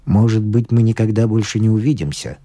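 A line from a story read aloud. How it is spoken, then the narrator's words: Plain. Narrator (Russian): сказал он мне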